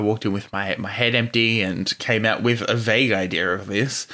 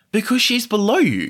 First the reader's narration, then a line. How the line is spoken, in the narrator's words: Joe exclaimed, his face red from too much alcohol and spittle flying out of his mouth